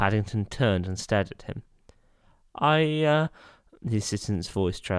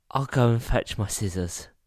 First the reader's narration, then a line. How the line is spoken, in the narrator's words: he said in a quiet voice